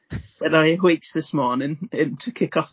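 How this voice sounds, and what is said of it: Poorly done put-on accent. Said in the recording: “I'm going to do an accent because it's spelt awakes and there's no way to do that in my own accent ... That's not a good accent.”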